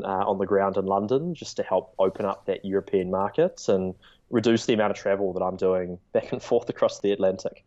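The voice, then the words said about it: New Zealand accent. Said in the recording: “The accent certainly stands out here in New York ... Kiwi company”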